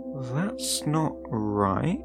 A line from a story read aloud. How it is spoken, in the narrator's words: I had muttered